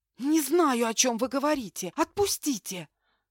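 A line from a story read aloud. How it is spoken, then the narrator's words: Hissing. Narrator (Russian): зашипела я в ответ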